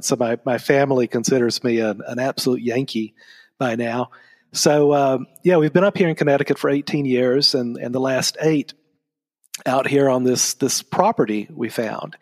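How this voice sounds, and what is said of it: Southern American accent. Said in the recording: “You can tell from my voice, I've got a Southern accent.”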